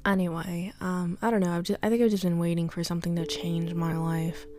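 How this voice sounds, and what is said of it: Speaks with a noticeable accent. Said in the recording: “I don't know why I have an accent. Again, I'm sorry about that.”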